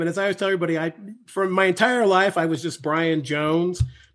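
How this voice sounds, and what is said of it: Voice in poor condition. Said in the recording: “my terrible voice”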